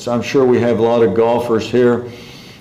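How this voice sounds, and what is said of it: Sarcastic tone. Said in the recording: “That was sarcastic.”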